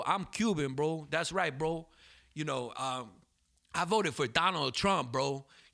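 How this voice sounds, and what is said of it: Miami Cuban guy accent. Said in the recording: “Miami, like, is the only city in America where that you got a different accent for the boys and girls, bro. Like, if you're a boy in Miami, you talk like this, bro.”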